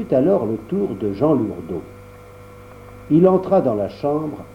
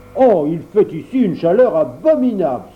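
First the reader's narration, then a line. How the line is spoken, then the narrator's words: Exclaimed. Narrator (French): s'écria-t-il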